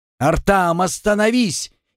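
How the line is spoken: Even louder alarmed yell. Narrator (Russian): Еще громче заорал Артем, понимая, что опасность грозит гремлуну

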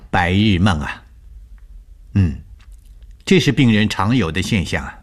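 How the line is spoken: Calm, faint smile. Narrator (Chinese): 吴医生淡淡一笑，对我说

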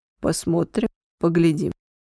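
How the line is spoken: Calm general stating. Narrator (Russian): спокойно заявил генерал

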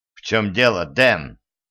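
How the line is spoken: Angry question. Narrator (Russian): сердито спросил преподаватель

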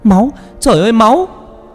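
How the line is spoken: Terrified scream. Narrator (Vietnamese): Vừa tỉnh dậy thì con Vân Anh hét lên

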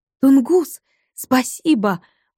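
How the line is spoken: Exclamation. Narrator (Russian): воскликнула Маша

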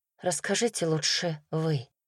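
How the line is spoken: Quiet. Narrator (Russian): тихо произнесла Ливит

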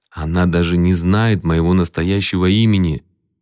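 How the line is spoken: Calm. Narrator (Russian): спокойно ответил Майк

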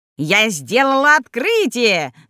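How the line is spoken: Old woman's shrill shout. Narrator (Russian): закричала бабка визгливым голосом

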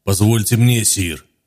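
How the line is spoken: Gloomy, muffled by helmet. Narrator (Russian): Голос Окера прозвучал мрачно из-под забрала шлема

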